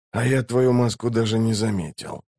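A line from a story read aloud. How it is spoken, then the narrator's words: Cold, calm insolence. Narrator (Russian): заявил наглец холодным и спокойным голосом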